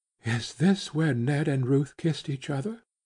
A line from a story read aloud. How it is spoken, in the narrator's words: she whispered breathlessly